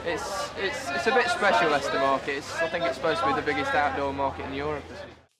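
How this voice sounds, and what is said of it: Posh-sounding English accent. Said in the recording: “What's gone on with your voice? You've changed. You've gone posh on us. ... That's just my accent.”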